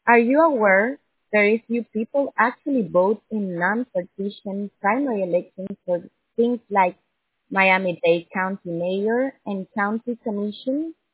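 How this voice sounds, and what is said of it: Strong, hard-to-understand accent. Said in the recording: “I'm having a very difficult time understanding your beautiful accent.”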